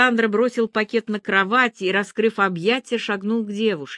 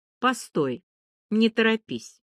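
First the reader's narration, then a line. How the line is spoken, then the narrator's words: Cold. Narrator (Russian): холодно произнесла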